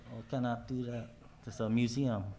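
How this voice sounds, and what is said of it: Weak put-on Filipino accent. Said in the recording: “That was a Filipino accent ... not very good”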